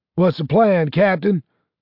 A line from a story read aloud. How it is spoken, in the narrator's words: shouted Horner